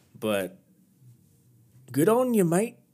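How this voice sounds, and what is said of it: Put-on Australian accent. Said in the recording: “That was Australian. I'm sorry. That's like kind of my go-to impersonation for some reason, my go-to accent.”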